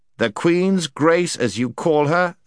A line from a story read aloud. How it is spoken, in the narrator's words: said the prince sternly